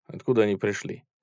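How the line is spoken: Plain. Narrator (Russian): спросил Захаров

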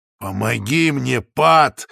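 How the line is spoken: Growl. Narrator (Russian): зарычал я

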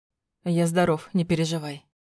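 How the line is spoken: Snorting. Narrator (Russian): хмыкнул он

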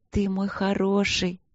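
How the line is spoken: Breathy cooing. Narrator (Russian): с придыханием проворковала я

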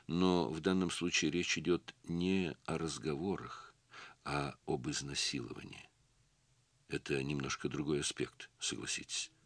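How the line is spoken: Gentle remark. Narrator (Russian): мягко заметил Юлов

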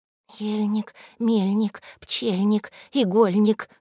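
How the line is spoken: Whispering under breath. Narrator (Russian): шептала себе под нос Наташа

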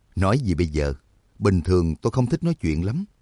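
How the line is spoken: Smiling. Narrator (Vietnamese): Trắc Mộc Cường Ba mỉm cười

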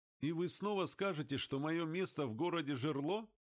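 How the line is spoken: Laughing. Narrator (Russian): засмеялся Морес

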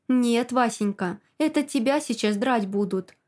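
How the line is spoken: Angry whisper in ear. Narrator (Russian): Зло шепчет он мне на ухо

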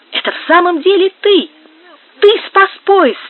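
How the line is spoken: Shouting. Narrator (Russian): кричал

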